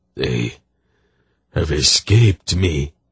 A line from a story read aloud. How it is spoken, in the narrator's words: he groaned with tears welling out of his closed eyes